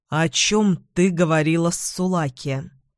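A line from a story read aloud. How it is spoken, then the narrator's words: Cold question. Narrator (Russian): холодно спросила Эдвин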